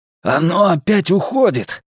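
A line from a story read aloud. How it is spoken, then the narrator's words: Roaring. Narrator (Russian): проревел он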